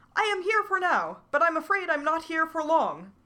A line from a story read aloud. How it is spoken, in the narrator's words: a tiny voice called out